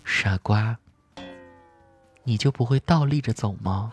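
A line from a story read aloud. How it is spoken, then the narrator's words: Gentle, low whisper. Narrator (Chinese): 帅气的总裁在你耳边温柔的低声说道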